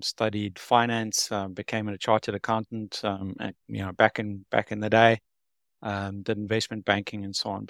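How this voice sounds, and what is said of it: South African accent. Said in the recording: “You might hear from the accent, I'm from South Africa, born and bred”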